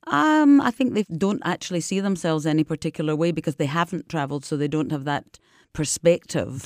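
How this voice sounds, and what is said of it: Scottish accent. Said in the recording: “I've got this Scottish accent, deep accent”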